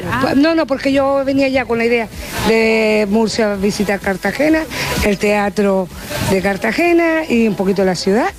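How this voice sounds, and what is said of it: Canary Islands Spanish accent. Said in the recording (Spanish): “Ese acento canario que tanto nos gusta.”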